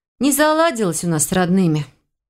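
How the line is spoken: Heavy sigh. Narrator (Russian): тяжело вздохнула я

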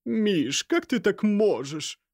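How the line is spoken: Moaning. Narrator (Russian): простонала женщина

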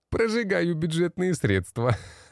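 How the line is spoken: Laughing. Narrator (Russian): Рассмеялся он

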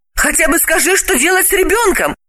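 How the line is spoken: Pleading. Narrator (Russian): Взмолилась Далила

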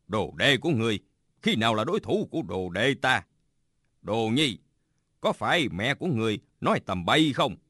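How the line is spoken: Smiling. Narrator (Vietnamese): Bạch Tự Tại mỉm cười nói

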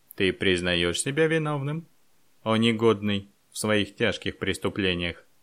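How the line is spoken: Menacing question. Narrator (Russian): граф грозно спросил

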